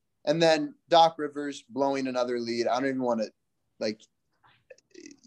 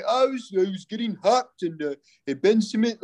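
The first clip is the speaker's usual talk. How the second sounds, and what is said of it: Poorly done put-on accent. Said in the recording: “That was a bad accent. I tried, but like, that's just so bad.”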